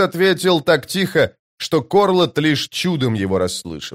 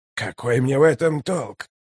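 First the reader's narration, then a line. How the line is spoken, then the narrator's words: Quiet, even question. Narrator (Russian): Тихо, ровно спросил он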